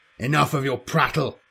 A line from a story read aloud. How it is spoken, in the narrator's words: Khan roared